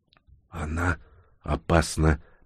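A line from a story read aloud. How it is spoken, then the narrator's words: Whisper. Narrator (Russian): прошептала Инга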